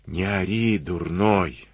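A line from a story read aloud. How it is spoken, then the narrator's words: Threatening whisper. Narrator (Russian): шепотом стращал Дениска барана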